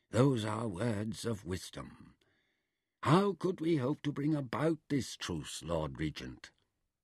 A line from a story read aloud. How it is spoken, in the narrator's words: he murmured